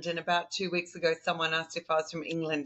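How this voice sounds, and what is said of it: Softened Australian accent. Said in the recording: “as people can probably tell from the accent, I am an Aussie ... maybe my Aussie accent is not as Aussie as what it used to be”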